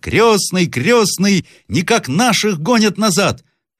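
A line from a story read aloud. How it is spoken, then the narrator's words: Boy shouting. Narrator (Russian): мальчик закричал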